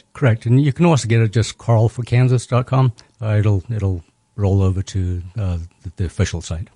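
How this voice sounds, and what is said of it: Slight Zimbabwean South African accent. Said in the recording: “You have a hint of an accent. ... Originally from Zimbabwe. ... Then I finished high school in South Africa.”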